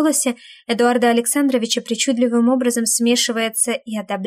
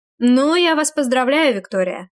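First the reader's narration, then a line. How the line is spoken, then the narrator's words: Snide, mocking. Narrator (Russian): ехидно проговаривает Козырь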